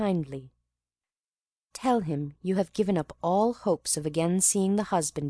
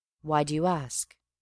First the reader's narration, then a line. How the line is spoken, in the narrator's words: said he